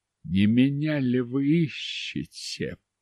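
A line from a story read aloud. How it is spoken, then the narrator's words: Mumbled. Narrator (Russian): пробормотал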